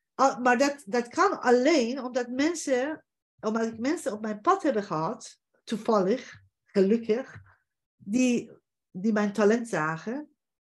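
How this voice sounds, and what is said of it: Foreign accent in Dutch. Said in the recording (Dutch): “mijn accent en mijn gebrek Nederlands”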